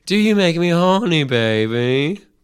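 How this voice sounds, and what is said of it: Austin Powers impression. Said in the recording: “I think it was a great impression of ... Austin Powers ... That was very good.”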